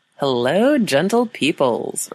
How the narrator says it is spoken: Ryan called out

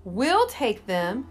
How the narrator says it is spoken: his mechanics blurted from the back of the garage

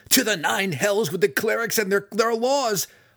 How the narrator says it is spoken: Alton shrieked back

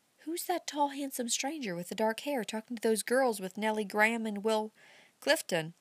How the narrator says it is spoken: whispered Amy Goodrich to Clara

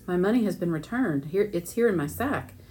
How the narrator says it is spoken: exclaimed

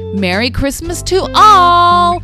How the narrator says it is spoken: shouted Froggy

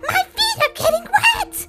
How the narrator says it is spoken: he yelled

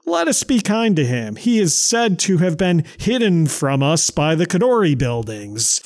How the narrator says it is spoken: Webb laughed and replied

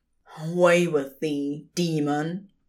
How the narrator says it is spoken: he said through clenched teeth

